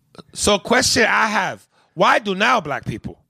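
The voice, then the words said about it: Put-on Asian accent. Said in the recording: “in that Asian voice”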